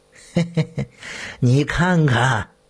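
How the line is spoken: Leering laugh. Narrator (Chinese): 淫邪地笑道

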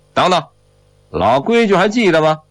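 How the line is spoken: Calling out. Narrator (Chinese): 被黑三儿叫着

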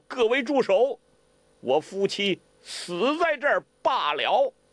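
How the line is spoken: Loud shout. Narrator (Chinese): 他大声叫道

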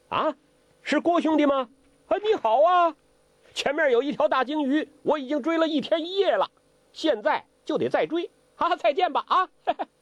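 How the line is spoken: Calling out. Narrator (Chinese): 周伯通叫

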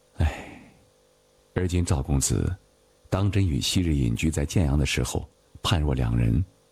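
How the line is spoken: Sighing. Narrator (Chinese): 宋慈叹道

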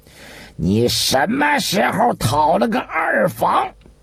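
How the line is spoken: Furious loud scolding. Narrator (Chinese): 张居正已是盛怒，于是一下子吊起了嗓子大声地斥道

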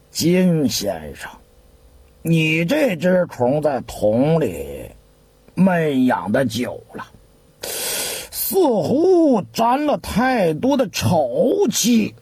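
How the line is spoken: Muttering. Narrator (Chinese): 毕愣子心里头咕哝，接着说

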